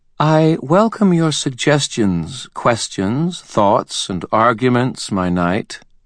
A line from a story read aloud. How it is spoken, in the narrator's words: Mab said in a calm voice